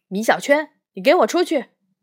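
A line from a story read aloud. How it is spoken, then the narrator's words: Angry teacher. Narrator (Chinese): 魏老师又发怒了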